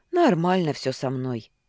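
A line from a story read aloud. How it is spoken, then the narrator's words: Sighing. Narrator (Russian): вздохнул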